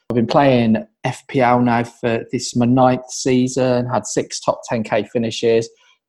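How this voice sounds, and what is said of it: Midlands English accent. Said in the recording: “from my accent you can probably tell that I'm a Villa fan, or from the Midlands”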